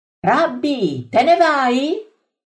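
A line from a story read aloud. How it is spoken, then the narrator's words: Shouted. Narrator (Italian): Saulo, che grida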